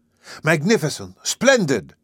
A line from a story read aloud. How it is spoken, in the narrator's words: cried my uncle